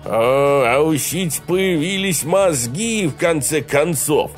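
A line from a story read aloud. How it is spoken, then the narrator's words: Chuckled. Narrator (Russian): хохотнул Хал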